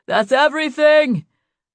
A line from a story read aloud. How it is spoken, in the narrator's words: Ellingham yelled